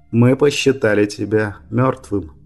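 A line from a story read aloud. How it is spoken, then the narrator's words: Gloomy. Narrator (Russian): мрачно сообщил Брайан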